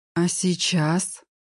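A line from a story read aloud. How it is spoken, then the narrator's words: Breathless whispered question. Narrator (Russian): почему-то шепотом спросила я, замирая от странных, неизведанных ощущений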